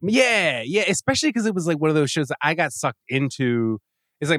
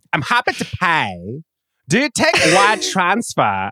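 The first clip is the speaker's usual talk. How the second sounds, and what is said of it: Old-timey Bond villain accent. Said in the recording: “her accent ... She is like an old-timey Bond villain”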